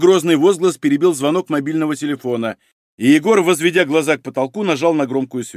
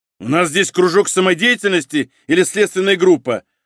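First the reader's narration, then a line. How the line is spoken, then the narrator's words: Roar. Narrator (Russian): взревел Малинин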